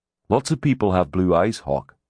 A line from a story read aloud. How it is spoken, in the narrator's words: Grimm said dryly